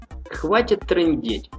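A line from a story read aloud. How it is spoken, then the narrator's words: Laughing. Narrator (Russian): засмеялся Влад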